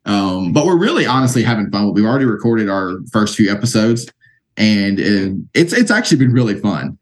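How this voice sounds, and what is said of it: Speaks with a noticeable twang. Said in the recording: “I do not have a voice for radio, for podcasting. ... My twang comes out too much for that.”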